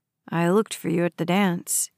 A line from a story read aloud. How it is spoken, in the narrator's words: he said in a low voice